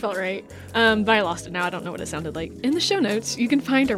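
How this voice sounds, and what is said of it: Usual voice. Nothing is said of it.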